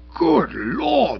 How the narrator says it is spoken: exclaimed

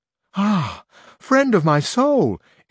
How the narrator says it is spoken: instantly exclaimed the other shepherdess

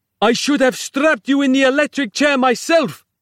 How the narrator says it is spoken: snapped Capello

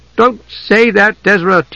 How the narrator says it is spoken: Tika cried suddenly

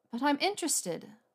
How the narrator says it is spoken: Hermione said sharply in that swatty, obstinate voice that she generally used when lecturing people about house elves

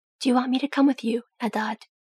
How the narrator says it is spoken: He whispered

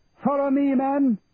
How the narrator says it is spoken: Charlie screaming at the top of his voice, more out of fear than bravado

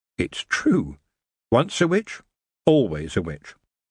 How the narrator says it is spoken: She happily told herself

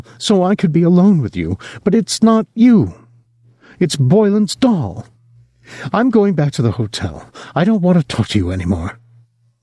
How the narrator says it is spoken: she was sobbing now

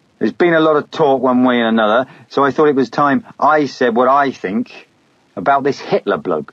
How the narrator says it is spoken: said loudly

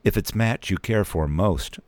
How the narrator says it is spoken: I said

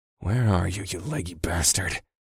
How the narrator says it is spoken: muttered

